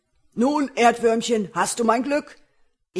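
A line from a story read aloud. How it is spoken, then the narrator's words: Giant calling out. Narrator (German): der Riese rief er ihm entgegen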